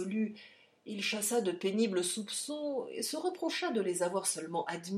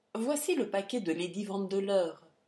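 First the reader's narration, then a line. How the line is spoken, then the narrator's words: Plain. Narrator (French): dit Harry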